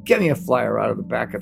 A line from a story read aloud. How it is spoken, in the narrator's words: she rasps